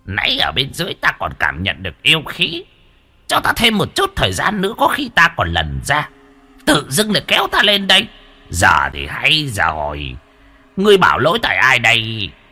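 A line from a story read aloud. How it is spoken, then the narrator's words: Old man, angry grumbling. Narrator (Vietnamese): Lão khuôn mặt tức giận cằn nhằn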